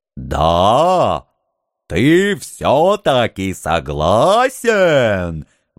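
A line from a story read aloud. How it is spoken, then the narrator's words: Ecstatic roar. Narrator (Russian): восторженно взревел Хан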